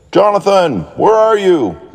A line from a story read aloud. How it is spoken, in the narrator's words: yelled Daniel